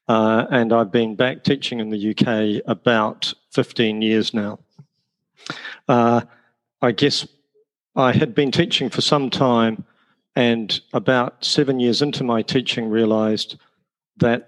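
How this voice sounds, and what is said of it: New Zealand accent. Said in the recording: “The accent is from New Zealand.”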